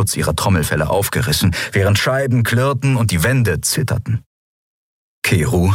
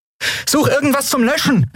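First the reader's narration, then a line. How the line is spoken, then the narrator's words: Urgent shout. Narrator (German): rief Andriel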